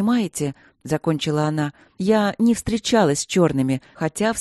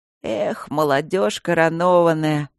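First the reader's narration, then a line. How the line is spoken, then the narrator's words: Professor's sigh. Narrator (Russian): вздохнул профессор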